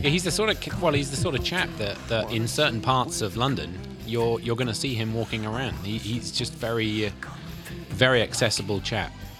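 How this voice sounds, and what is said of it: Noticeable accent. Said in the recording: “obviously you heard the accent”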